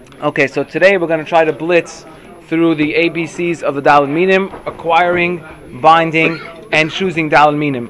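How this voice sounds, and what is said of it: Congested voice from a cold. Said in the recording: “I have a little cold, so if anybody can't hear me properly or it just comes a little slurred”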